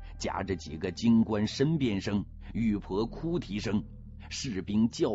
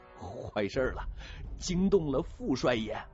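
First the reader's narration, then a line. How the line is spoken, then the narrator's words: Panicked trembling voice. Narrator (Chinese): 侯富宝脸色雪白，惊慌的腿肚子转筋，颤声说道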